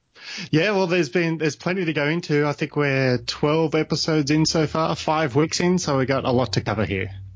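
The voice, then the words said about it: Australian accent. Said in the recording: “as people have picked up on from your accent, you are in Australia yourself”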